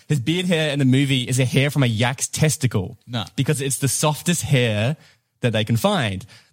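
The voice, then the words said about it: New Zealand accent. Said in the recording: “that's my New Zealand accent coming through”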